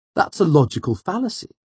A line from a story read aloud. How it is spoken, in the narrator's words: Sim pointed out eagerly